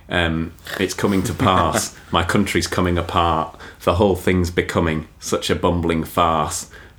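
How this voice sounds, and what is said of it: Put-on London accent. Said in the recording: “I'm gonna have to do in a London accent, otherwise it doesn't rhyme. So I haven't become Southern”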